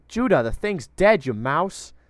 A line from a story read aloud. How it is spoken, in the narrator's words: Erithor had yelled